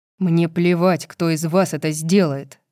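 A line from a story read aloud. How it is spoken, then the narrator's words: Barking. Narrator (Russian): рявкнул Рун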